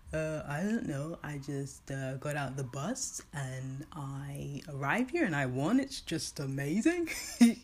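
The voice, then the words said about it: Put-on unidentified accent. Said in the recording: “I don't know what accent that is”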